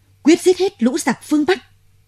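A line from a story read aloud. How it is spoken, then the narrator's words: Loud collective shout. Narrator (Vietnamese): chúng tướng ai nấy thét to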